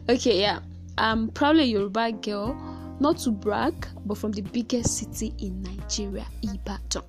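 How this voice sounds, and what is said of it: Nigerian English accent. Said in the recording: “From my accent, you could clearly tell that I'm a Nigerian, but I hope you never get to know that I'm a Yoruba girl from my accent.”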